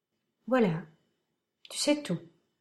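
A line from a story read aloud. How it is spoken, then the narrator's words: Softly. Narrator (French): prononça Michael doucement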